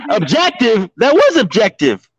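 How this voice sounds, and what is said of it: Yelling loudly. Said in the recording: “Why are you yelling?”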